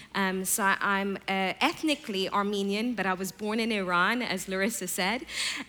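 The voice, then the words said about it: Distinctive foreign accent. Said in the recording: “my accent. ... I sound a little bit strange”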